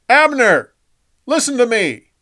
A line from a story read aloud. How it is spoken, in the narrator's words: David yelled at Saul's camp